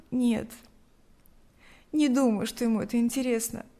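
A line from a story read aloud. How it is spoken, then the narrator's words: Sighed. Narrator (Russian): вздохнула Лика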